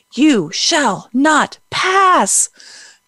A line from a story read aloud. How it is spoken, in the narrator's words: just like he yelled to the Balrog on the bridge